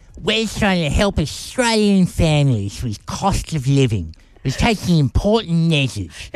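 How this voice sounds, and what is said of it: Exaggerated Albo impression. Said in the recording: “an Albo impersonation ... He doesn't sound like that. ... You've exaggerated slightly.”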